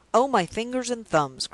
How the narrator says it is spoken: cried the doctor, with an air of comic vexation

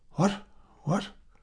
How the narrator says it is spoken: she stammered

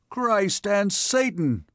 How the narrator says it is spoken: exclaimed the captain

